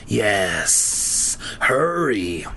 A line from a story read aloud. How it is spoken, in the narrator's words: the other one hissed